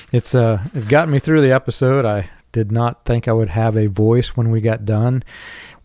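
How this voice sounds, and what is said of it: Hoarse, strained voice. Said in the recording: “if you know my voice, I get really hoarse”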